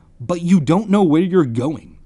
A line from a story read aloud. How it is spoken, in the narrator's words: he said angrily